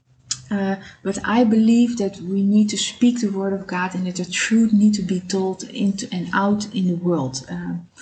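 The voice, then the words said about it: Non-native English accent. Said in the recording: “I'm sorry for my accent. I'm trying to learn English better... mind my accent”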